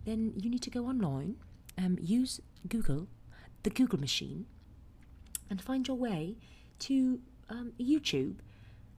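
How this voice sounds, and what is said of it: Put-on British accent, slipping. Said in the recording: “how to do a British accent ... I have so slipped out of my British ... I'm kind of slipping into Cockney now”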